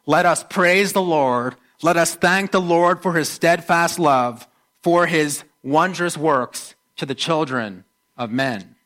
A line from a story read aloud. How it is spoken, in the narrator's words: we shout out